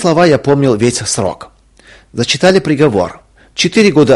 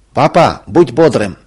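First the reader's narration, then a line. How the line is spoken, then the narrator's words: Shout. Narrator (Russian): крикнул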